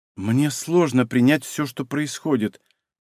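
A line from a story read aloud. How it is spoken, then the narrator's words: Mumbling young woman. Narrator (Russian): пробормотала девушка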